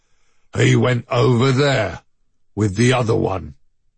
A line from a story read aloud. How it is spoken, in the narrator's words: A low elephantine voice rumbled